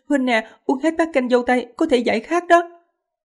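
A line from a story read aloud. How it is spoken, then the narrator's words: Girl laughing. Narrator (Vietnamese): a đầu bật cười, nói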